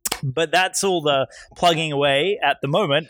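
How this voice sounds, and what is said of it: Polished radio announcer voice. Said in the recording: “you do get my best radio voice.”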